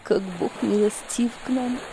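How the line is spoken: Whispering. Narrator (Russian): прошептала она

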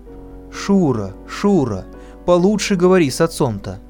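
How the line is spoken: Plain. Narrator (Russian): сказала мать

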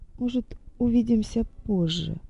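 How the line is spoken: Quiet. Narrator (Russian): тихо сказала

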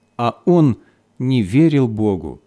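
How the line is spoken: Sad. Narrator (Russian): добавил печально

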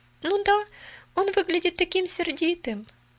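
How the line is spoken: Sad reply. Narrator (Russian): грустно отозвалась Поллианна

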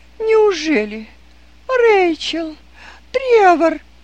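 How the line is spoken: Surprised exclamation, lady. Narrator (Russian): удивленно воскликнула дама

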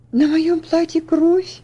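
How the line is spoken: Frightened exclamation. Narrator (Russian): воскликнула Элси испуганно

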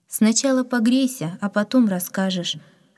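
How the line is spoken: Plain. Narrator (Russian): ответила учительница

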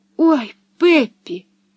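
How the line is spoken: Frightened exclamation. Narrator (Russian): испуганно воскликнула она

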